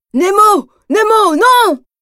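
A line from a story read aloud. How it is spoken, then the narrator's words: Shouted. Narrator (French): crie Marin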